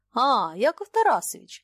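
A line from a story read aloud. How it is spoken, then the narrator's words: Friendly exclamation. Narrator (Russian): дружелюбно воскликнул губернатор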